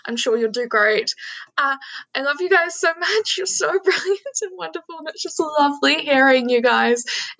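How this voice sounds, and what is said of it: New Zealand accent. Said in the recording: “I'm from New Zealand, so feel free to make fun of my accent. Hopefully you don't make it sound just like an Aussie”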